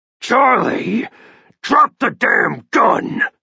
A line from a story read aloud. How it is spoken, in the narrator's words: Grant roared furiously